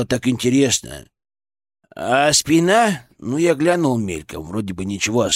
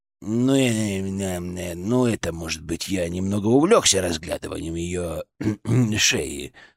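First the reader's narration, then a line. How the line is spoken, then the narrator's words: Mumbling. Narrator (Russian): пробормотал он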